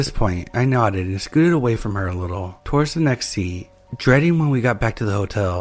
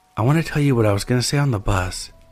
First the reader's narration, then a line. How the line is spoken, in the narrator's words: she whispered to me